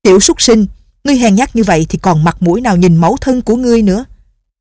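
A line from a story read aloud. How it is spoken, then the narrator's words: Furious shout. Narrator (Vietnamese): lão không kiềm chế được phẫn nộ quát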